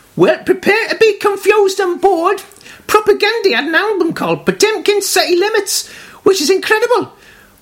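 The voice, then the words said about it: Put-on Durham accent. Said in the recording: “he's doing the Durham accent ... it sounds exactly like this when he says it”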